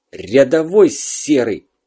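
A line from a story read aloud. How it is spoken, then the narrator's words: Angry hiss. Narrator (Russian): зло прошипел Зверев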